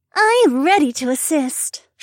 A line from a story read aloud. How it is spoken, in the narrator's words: she said in her super helpful voice